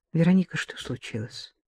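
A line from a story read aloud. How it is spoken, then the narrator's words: Quiet question. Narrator (Russian): Спросила негромко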